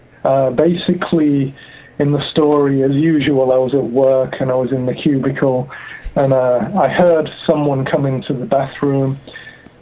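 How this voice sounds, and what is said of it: Unusual foreign accent. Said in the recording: “my weird accent... your weird moon voice”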